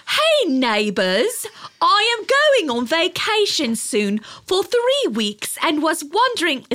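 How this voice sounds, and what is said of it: Put-on British accent. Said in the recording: “Should I read it in a British accent,”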